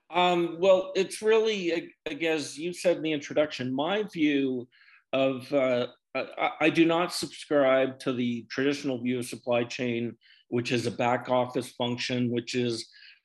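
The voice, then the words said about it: Canadian English accent. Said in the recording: “from his accent, he's a Canadian”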